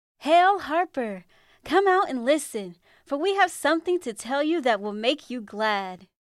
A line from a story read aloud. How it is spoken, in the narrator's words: they called out